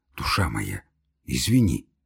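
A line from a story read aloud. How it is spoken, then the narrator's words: Embarrassed whisper. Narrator (Russian): зашептал Самойленко, конфузясь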